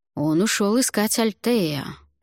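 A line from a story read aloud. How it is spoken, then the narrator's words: Plain. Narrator (Russian): ответил Альвар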